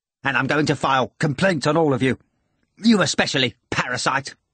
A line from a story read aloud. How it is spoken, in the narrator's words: Ivan said impatiently